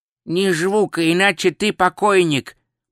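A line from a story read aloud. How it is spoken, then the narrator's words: Nasal voice near ear. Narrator (Russian): произнес у него над ухом гнусавый голос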